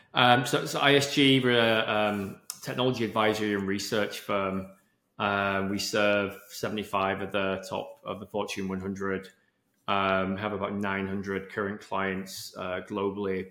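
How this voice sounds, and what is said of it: Non-Texan, non-American accent. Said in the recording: “I'm based in Dallas, Texas now, despite the accent.”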